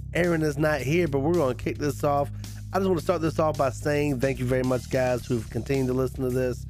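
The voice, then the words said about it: Sounds sick. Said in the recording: “Sorry if I sound sick.”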